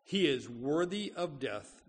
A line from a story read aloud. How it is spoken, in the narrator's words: they answered